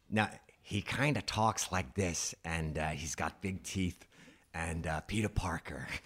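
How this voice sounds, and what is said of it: Imitates another person's voice. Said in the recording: “Willem Dafoe ... was that a good impression? ... that part of the impression”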